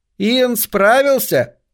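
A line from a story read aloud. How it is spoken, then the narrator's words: Young woman shouting. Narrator (Russian): крикнула какая-то девица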